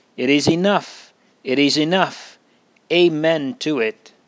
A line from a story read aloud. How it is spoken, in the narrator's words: I cried out